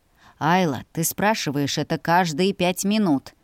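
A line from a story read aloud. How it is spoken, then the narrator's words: Grumbling. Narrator (Russian): проворчал он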